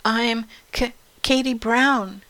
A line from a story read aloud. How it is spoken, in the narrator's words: stammered Katie